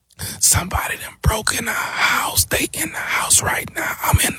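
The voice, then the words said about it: Quiet scared whisper. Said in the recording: “speak up. I can't hear you ... why the hell are you whispering?”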